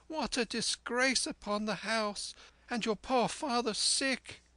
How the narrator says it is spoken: cried my mother

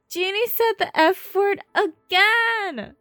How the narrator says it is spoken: he howls

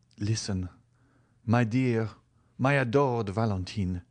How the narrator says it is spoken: said he in his melodious and grave tone

